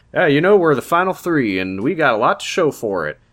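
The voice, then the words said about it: Imitated Southern accent. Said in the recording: “That's his southern accent.”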